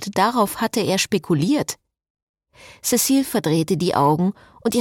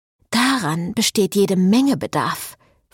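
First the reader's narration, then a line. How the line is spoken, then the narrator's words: Hissing. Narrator (German): fauchte Cecile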